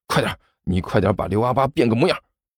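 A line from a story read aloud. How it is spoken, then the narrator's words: Low voice. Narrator (Chinese): 干球低声说道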